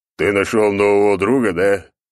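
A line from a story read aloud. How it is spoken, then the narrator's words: Deep voice, smiling. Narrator (Russian): пробасил он с улыбкой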